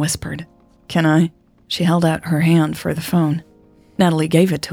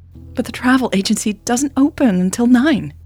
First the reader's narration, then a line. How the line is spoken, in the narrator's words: Natalie squeaked